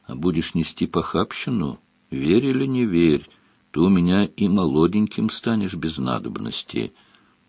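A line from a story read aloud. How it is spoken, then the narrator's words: Old woman, gentle tone. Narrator (Russian): Старуха ласково сказала вслед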